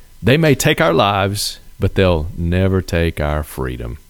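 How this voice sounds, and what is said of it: Slight put-on accent, deliberately bad reading. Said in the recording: “A little accent with it. ... doing a terrible line reading.”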